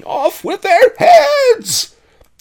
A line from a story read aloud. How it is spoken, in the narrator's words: Bonzas screamed